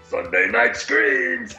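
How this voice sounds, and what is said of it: Cookie Monster voice. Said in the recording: “Cookie Monster voice ... Perfect.”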